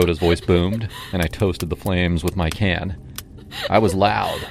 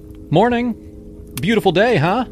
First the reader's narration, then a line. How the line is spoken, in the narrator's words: I called out, trying to sound casual